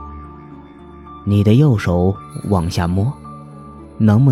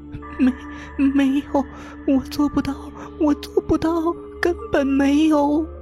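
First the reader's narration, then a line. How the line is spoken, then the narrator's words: Breaking voice, crying. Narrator (Chinese): 杨子怡的声音变了，哭了起来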